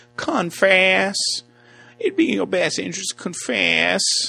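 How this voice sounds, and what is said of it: Imitated Southern US accent. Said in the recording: “She had a southern accent.”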